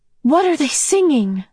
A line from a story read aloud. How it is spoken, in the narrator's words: Meg asked excitedly